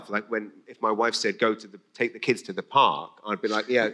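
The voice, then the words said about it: English accent. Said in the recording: “oh, what's that accent? English”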